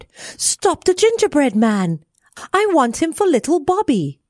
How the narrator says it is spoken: she cried

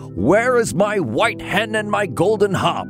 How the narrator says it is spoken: The giant awoke and yelled

